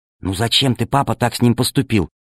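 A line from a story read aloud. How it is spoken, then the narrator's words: Whisper. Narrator (Russian): прошептала Алиса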